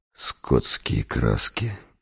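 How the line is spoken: Muttering. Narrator (Russian): пробормотал я

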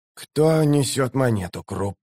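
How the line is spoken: Strangled wheeze. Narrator (Russian): сдавленно прохрипел он

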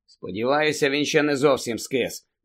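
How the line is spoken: Glum grumble. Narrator (Ukrainian): невесело буркнув Фред

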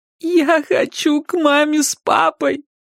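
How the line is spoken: Sobbing. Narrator (Russian): прорыдала

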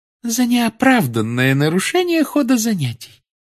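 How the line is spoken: Calm woman. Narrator (Russian): спокойно произнесла профессор Амбридж

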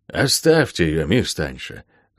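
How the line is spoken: Sudden sigh. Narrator (Russian): вдруг вздохнул мистер Питвик

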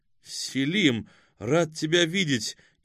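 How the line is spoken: Sincere exclamation. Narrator (Russian): искренне воскликнул Артем

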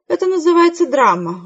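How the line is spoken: Weary explanation. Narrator (Russian): устало объяснила Хэвишем

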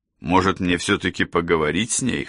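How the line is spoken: Wry snort. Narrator (Russian): хмыкнул я

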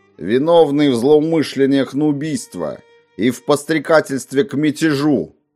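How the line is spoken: Loud, shooter on scaffold. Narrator (Russian): громко проговорил стрелок на эшафоте

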